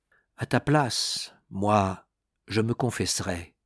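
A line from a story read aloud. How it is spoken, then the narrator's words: Serious tone. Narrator (French): il dit d'un ton sérieux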